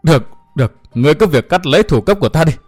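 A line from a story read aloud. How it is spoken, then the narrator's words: Breathless after laughing. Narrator (Vietnamese): Thiên Hương Phi Tử mới dứt tiếng cười, thở hổn hển nói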